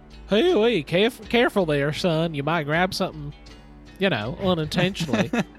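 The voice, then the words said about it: Folksy wheat farmer character voice. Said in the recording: “You're doing a voice. ... This is ... using his wheat farmer voice.”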